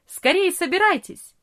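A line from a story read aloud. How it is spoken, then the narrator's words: Cheerful. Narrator (Russian): весело сказал папа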